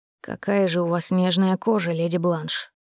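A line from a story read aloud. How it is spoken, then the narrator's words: Passionate breathy exhale. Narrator (Russian): Страстно выдохнул он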